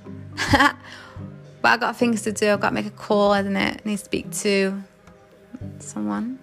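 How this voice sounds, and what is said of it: Tired, sleepy voice. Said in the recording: “I'm actually really tired. My voice is getting sleepy”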